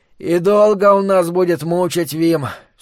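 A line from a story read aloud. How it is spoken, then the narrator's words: Sleepy mumble. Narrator (Russian): все так же сонно промычал Майки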